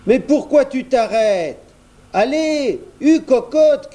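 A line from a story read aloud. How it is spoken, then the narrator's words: Shout. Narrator (French): crie Jojo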